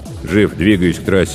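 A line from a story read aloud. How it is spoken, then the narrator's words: Grim. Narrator (Russian): сообщил он мрачно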